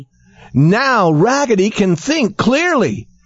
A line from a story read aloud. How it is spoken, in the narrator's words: shouted all the dolls